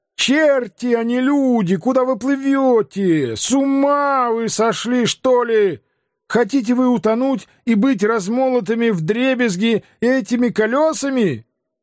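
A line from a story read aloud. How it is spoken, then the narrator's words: Loud shouting. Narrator (Russian): Они громко кричали, говоря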